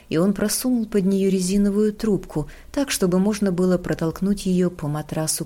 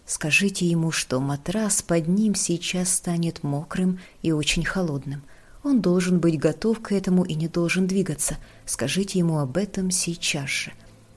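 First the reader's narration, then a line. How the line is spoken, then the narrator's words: Whisper. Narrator (Russian): прошептал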